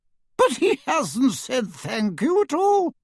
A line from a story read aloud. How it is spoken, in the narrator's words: said Hestia indignantly